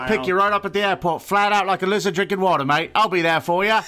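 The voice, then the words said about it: Put-on Australian accent. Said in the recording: “that Australian accent”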